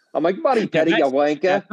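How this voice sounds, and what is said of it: Mock Australian accent. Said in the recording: “some type of accent ... You'd be Crocodile Dundee James Bond”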